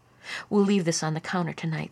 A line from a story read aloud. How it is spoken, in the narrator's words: said Annie